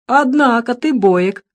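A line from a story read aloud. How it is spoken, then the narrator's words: Laughing. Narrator (Russian): засмеялся он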